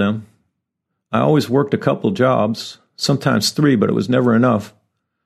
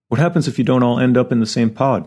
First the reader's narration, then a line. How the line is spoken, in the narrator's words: Nicole asked